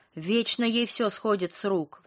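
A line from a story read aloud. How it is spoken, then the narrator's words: Sigh. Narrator (Russian): вздохнула Ника, осуждающе взглянув на сестру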